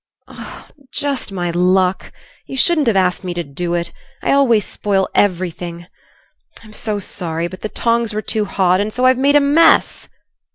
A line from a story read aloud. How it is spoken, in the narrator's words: groaned poor Jo, with tears of regret